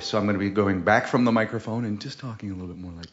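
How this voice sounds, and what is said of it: Public radio announcer voice. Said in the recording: “Suddenly, I've assumed a public radio voice”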